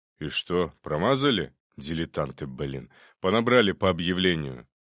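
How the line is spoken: Displeased grumble. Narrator (Russian): Мент недовольно пробурчал

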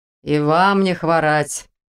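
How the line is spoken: Grumbling reply. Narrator (Russian): предсказуемо проворчал в ответ полицейский

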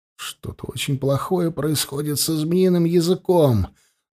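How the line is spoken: Strained, choked voice. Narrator (Russian): сдавленным голосом сказал Андема

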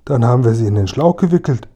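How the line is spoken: Called out. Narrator (German): rief Kasperl

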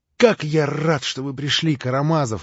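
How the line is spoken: Glad exclamation. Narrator (Russian): воскликнул он

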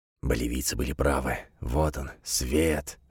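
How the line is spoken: Exhausted whisper. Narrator (Russian): шептал Бруно, теряя последние силы

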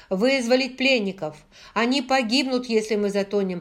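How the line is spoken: Shouted over shoulder. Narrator (Russian): прокричал он через плечо

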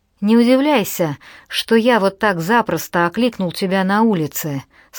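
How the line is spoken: Plain. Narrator (Russian): сказал ей Джордж

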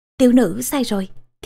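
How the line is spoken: Stammering. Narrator (Vietnamese): Thiên Hương lắp bắp

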